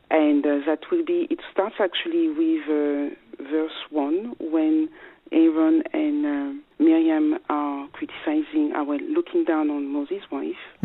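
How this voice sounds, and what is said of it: Strong French accent. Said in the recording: “my strong French accent”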